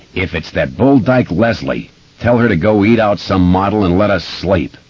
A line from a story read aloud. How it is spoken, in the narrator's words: yelled crossly